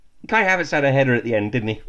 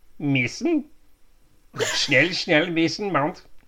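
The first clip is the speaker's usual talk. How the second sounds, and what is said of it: Mock German accent. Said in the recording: “Mason's just really difficult to say in a German accent. ... He said German accent. ... that was very clearly a Luxembourgian accent.”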